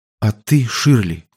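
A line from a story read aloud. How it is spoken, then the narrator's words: Quiet secretive question. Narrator (Russian): тихо, чтобы не услышал Сол, спросил Энди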